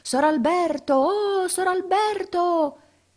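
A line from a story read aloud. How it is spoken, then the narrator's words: Shouting at top of lungs. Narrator (Italian): con le mani alla bocca s'urlava a perdifiato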